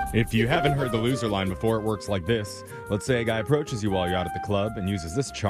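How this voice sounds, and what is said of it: Usual voice. Nothing is said of it.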